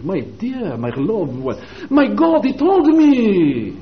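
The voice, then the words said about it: Put-on French or Italian accent. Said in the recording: “He even talks with a French accent. ... That may be Italian, I don't know”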